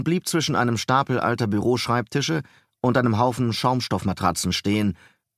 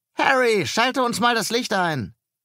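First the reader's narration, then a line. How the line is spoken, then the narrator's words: Loud call backward. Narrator (German): Laut rief er nach hinten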